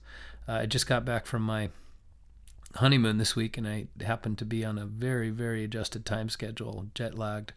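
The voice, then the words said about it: Hoarse, raspy voice. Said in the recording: “apologize for my voice. I've lost my voice ... I think I got a little bit sick ... a more raspy voice”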